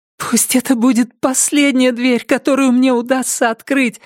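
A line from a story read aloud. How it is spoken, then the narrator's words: Pleading. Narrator (Russian): взмолилась она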